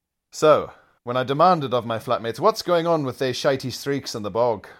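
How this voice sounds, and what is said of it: Usual voice. Nothing is said of it.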